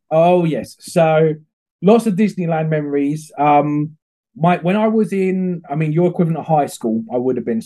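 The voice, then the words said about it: English accent. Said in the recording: “hearing your accent. You're coming to us from England.”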